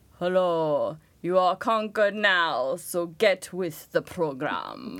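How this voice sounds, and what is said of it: Put-on Old English accent. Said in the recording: “Old English. ... That's not your regular voice, so that'll do it.”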